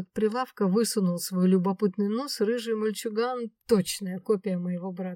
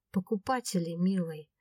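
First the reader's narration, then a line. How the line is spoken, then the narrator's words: Affectionate reply. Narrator (Russian): ласково ответила женщина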